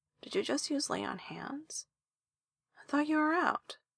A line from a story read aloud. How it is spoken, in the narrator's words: Esther mumbles into his shoulder